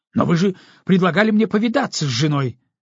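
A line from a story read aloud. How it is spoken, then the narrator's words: Indignant objection. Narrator (Russian): возмущенно возразил Ламзин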